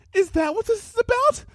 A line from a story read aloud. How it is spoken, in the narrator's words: squeaked